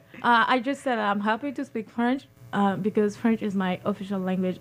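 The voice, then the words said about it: Noticeable accent of a French speaker. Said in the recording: “I'm sure our listening audience can pick up your accent. And I know French is your official language.”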